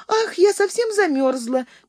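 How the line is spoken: Squeak. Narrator (Russian): пискнула Сонечка

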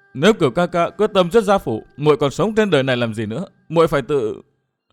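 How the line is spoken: Sobbing. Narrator (Vietnamese): Anh Thư nức nở

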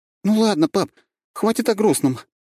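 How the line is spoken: Girl's forced cheerful exclamation. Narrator (Russian): воскликнула девчонка с показным оптимизмом

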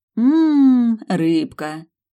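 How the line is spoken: Casual drawl hiding nerves. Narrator (Russian): Протянула непринужденно, внутренне сотрясаясь от хлынувшего в кровь адреналина

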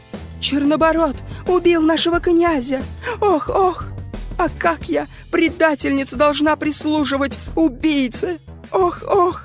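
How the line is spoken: Moaning lament. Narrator (Russian): застонал серебряный нож

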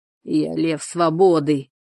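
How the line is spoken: Drunken bellow. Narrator (Russian): с пьяной удалью рявкнул Юнгве

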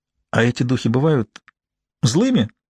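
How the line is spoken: Laughing. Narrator (Russian): рассмеялась Джун

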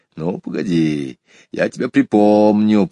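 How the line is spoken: Grumbling. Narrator (Russian): проворчал Сергей Иванович

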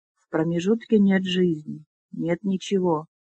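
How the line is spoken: Strained, forced out. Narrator (Russian): выдавил из себя Флар

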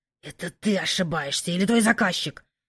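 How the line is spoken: Low growl. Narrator (Russian): тихо рыкнул Кайден

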